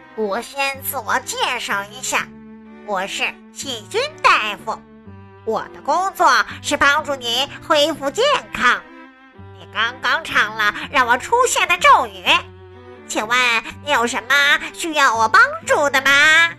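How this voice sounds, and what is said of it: High, squeaky little character voice. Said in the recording (Chinese): “小人儿用尖尖的声音说道”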